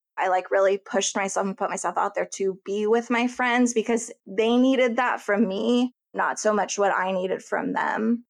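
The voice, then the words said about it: Emotional, choked-up voice. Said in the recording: “I'm like getting a little emotional.”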